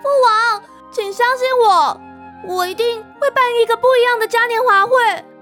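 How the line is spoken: Shouting. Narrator (Chinese): 元宇大喊

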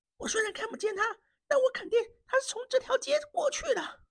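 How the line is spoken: Breathless, quiet young man. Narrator (Chinese): 那年轻人气喘吁吁，小声地说

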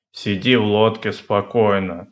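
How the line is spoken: Stern. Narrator (Russian): строго сказал Пэтсон

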